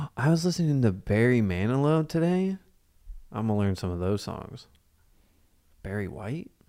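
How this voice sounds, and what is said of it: Usual voice. Nothing is said of it.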